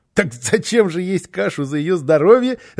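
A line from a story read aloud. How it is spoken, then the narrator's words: Child laughing. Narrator (Russian): рассмеялся малыш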